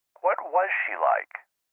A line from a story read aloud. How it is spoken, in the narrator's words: nearly choked on the word